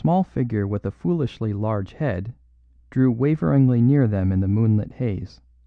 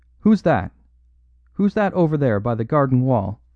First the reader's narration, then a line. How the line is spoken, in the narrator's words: the unnerved Galloway called out sharply